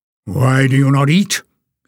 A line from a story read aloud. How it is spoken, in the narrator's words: snapped